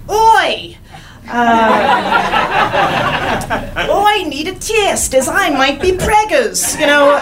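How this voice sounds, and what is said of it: Attempted New Zealand accent. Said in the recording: “learn the accent. Learn the accent ... I'm terrible with accents ... I'm going to learn this accent”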